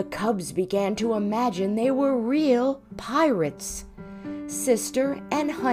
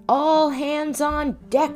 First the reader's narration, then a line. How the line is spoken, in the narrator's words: shouted Brother